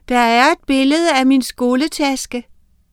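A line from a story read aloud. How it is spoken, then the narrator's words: Exclamation. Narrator (Danish): udbrød hun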